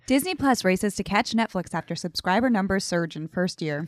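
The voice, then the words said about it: Newscaster-style reading voice. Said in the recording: “That was a great newscaster voice.”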